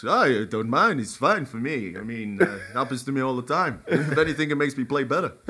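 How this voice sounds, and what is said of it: Imitates another person's voice. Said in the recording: “That's my De Bruyne accent. ... I thought Kevin De Bruyne walked in the room then.”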